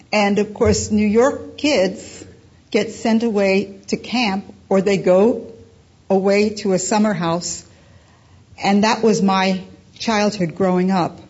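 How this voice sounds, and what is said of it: New York accent with twang. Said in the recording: “I am a New Yorker. You could probably tell by my little twang in my voice.”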